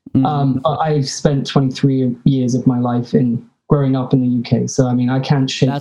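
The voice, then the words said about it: English accent. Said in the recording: “your accent, like, totally threw me off for a second ... that'll be the English in me”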